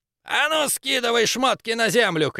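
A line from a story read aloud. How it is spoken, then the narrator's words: Shout. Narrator (Russian): крикнул третий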